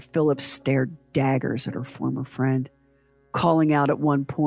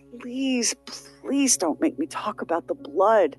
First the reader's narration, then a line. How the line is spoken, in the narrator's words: sobbed through parts of her testimony and pleaded